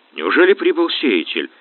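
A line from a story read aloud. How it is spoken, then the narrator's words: Snort. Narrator (Russian): хмыкнул Диего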